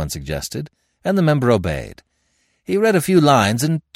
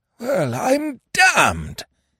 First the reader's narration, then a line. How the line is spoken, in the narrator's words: he gasped